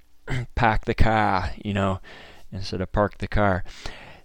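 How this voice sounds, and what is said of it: Imitated thick Boston accent. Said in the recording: “He's got a Boston accent ... that Northeast, that coastal ... the Boston accent really stuck out ... He spoke with that really thick accent.”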